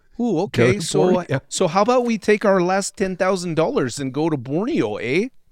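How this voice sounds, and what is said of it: Bad put-on Canadian accent. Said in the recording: “It's a shit Canadian accent.”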